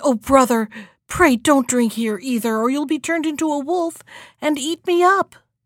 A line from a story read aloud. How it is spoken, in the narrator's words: she cried